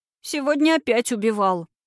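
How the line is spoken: Sobbing. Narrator (Russian): всхлипнула Катя

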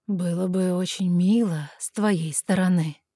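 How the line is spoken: Seductive drawl. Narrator (Russian): полным соблазна голосом протянул наглец

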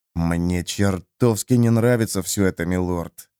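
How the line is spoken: Quiet. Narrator (Russian): тихо произнес Джимис

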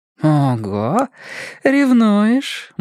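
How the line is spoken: Girl purring. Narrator (Russian): мурлыкнула девушка

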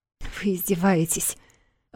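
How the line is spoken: Breathless exclamation. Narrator (Russian): выдохнула Юна

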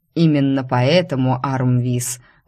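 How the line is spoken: Cold reply. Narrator (Russian): холодно отозвался повелитель

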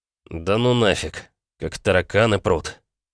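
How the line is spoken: Heavy exhale. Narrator (Russian): Тяжело выдохнул я

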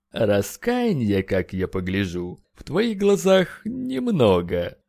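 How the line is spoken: Drawling. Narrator (Russian): Протянул Эшберн

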